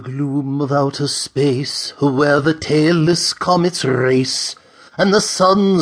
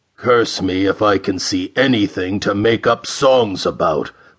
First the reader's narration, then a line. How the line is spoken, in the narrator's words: growled the big Mercurian